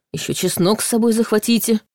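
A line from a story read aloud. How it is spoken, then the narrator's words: Mumbling. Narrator (Russian): Ваня пробормотал что-то вроде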